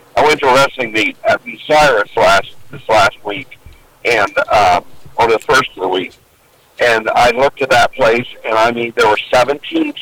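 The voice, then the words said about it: Slightly rough, congested voice. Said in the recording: “you can probably tell in my voice, a little tail end of it, just getting over one of those terrible colds”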